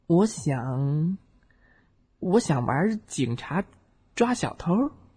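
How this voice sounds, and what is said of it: Quiet, soft-spoken voice. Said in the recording (Chinese): “小声的回答”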